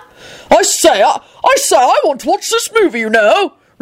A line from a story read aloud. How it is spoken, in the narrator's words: Richard bellowed